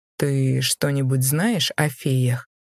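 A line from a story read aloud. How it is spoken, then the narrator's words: Calm. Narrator (Russian): демон спокойно произнес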